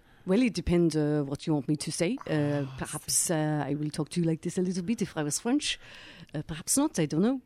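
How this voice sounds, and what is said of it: Put-on French accent. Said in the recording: “give us a bit of the French ... French accent, please don't call in and tell me how awful that was.”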